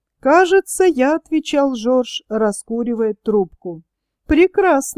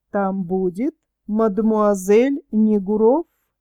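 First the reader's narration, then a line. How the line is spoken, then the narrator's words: Ironic objection. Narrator (Russian): возразила ироническим тоном Варенька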